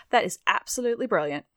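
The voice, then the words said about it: Weak put-on British accent. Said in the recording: “my terrible semi impression of a British accent.”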